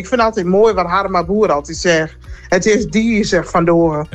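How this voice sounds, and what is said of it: Strong Groningen regional accent. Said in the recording (Dutch): “Prachtig accent ... daar hoor je helemaal niks meer van ... Dat is nou een echte grunnige”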